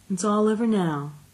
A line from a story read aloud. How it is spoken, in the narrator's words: she said soothingly